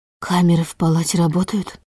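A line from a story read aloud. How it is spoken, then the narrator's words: Whispered question. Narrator (Russian): Шепотом, будто разучилась разговаривать нормально, спросила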